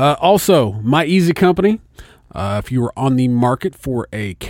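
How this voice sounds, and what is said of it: Usual voice. Nothing is said of it.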